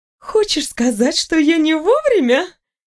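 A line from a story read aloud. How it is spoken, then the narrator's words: Laughing. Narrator (Russian): рассмеялась элементаль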